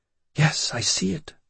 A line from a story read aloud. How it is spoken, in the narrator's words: she whispered